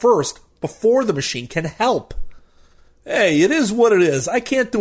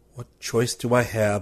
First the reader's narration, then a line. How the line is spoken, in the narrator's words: I mutter